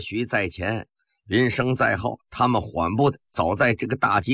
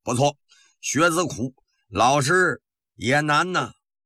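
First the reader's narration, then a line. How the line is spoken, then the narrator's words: Loud answer. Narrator (Chinese): 林则徐大声地答道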